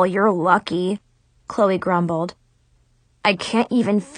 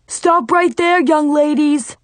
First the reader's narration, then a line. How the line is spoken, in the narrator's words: barked Mr